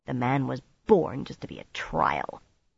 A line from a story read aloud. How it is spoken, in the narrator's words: Nynaeve muttered sourly